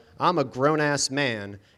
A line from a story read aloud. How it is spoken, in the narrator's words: I also yelled out